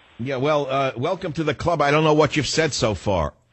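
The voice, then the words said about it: Bronx accent. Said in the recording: “your Bronx accent”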